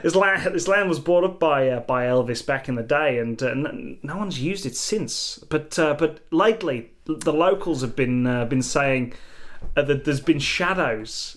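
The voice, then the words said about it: Unidentified put-on accent. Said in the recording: “I don't know what accent this is.”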